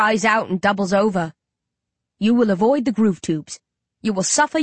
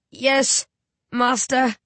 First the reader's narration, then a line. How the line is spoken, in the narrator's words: Shane wheezes